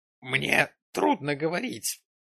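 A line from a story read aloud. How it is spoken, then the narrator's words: Hoarse rasp. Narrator (Russian): прохрипел Джим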